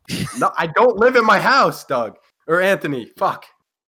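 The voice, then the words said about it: Yelling, belligerent loud voice. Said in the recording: “You yell a lot. Why are you yelling? ... belligerent, ... yelling, bro?”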